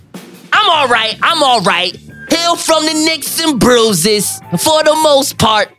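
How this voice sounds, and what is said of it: Imitates another person's voice. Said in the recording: “could do a Chris Rock impression?”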